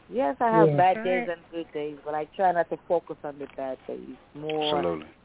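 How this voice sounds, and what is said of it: Caribbean accent. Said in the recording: “I love your accent... The Caribbean Islands... she has a beautiful accent”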